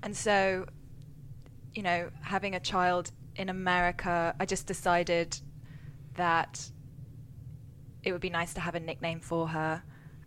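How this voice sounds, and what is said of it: English accent. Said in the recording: “with my accent, you know, being from England”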